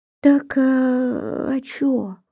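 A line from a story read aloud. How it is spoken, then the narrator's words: Vague sigh, half-agreeing. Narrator (Russian): неопределённо вздохнула Агафья, как будто и соглашаясь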